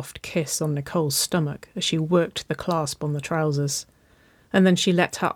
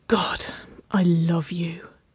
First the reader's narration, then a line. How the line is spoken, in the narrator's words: she breathed